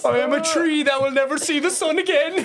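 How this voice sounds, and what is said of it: Shakespearean lines in North Side accent. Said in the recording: “just gets all Shakespearean in the North Side accent.”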